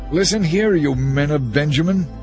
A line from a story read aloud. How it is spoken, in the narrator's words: Saul shouted when he heard the news